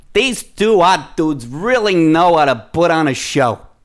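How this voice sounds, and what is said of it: Bernie Sanders impression. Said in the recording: “in your John Gruden voice? ... Now you're doing like Bernie Sanders.”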